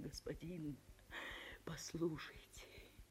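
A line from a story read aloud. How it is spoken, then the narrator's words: Timid whisper. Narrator (Russian): Она еле осмелилась шептать вслед прохожим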